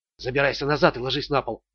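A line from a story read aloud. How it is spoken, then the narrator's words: Whispered. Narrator (Russian): прошептал Ричард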